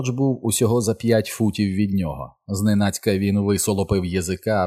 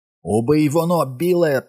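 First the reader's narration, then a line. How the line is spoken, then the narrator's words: Shriek. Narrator (Ukrainian): проверещав Едді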